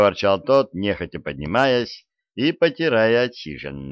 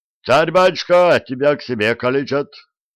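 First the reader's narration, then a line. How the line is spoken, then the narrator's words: Yelling. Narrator (Russian): стрелец заорал Мике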